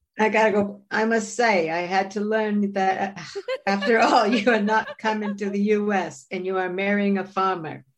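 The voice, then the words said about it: Terrible Kennedy impression, Boston accent. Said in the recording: “I had to do a terrible Kennedy ... You gotta do a Boston accent.”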